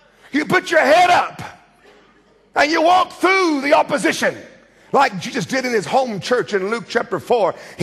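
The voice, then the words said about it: American accent, loud shouting delivery. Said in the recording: “my American screaming accent”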